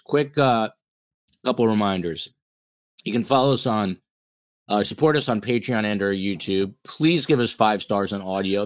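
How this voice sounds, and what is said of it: Strained, failing voice. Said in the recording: “my voice is totally going”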